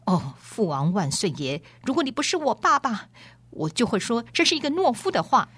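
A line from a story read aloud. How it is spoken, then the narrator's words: Through gritted teeth. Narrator (Chinese): 王子咬牙切齿地说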